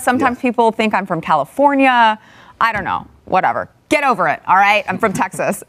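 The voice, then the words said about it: Midwestern, Minnesota-like accent. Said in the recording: “I did notice the Midwestern kind of news. ... I have this really weird accent. ... Like from Minnesota.”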